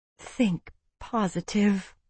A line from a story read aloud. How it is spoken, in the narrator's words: I mumbled around a mouthful of food